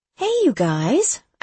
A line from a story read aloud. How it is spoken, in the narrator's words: I said cheerfully